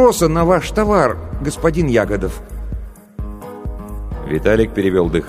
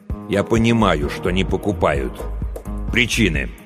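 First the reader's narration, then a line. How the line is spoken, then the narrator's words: Mumbled. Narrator (Russian): бормотание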